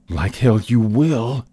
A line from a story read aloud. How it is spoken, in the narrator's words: in a seething tone